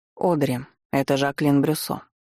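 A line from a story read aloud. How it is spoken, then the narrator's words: Icy tone. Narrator (Russian): произнес он ледяным тоном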